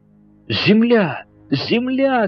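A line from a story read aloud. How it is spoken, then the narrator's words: Booming exclamation. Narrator (Russian): громогласно воскликнул Паганель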